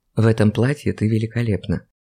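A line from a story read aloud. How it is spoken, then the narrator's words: Whisper. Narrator (Russian): прошептал Андрей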